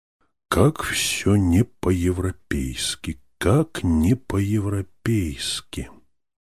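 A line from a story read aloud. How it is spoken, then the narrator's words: Whispered. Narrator (Russian): профессор прошептал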